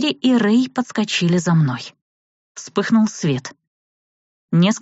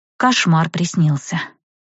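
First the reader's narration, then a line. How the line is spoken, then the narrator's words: Whispered reply. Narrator (Russian): шепотом ответила я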